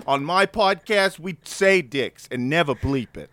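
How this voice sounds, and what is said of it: Put-on Boston accent. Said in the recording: “That's my best uh, Boston accent”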